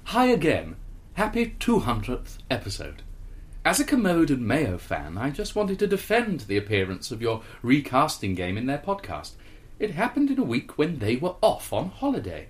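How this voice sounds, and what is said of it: Pious vicar character voice. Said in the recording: “like a really Jobsworth vicar ... Not a Welsh, a really pious vicar. ... A really pious vicar.”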